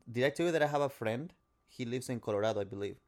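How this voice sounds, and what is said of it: Speaks English with an accent. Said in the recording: “You have an accent.”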